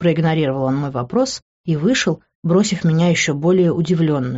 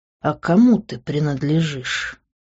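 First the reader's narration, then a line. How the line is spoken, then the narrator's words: Very quiet question. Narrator (Russian): Он задал вопрос так тихо, что до меня долетело только начало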